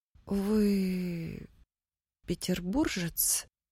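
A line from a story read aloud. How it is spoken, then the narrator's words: Forced out with difficulty. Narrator (Russian): Кое-как выдавила Нина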